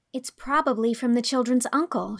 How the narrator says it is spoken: she said excitedly

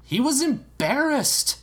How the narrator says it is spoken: the princess exclaimed

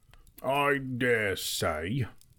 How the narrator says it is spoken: grumbled Bomber

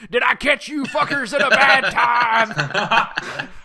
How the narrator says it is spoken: shouting

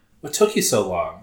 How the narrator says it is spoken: Olivia asked

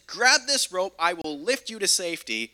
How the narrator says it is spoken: the pilot shouts down and says

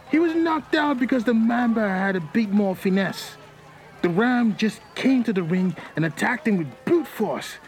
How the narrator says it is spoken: a man exclaimed

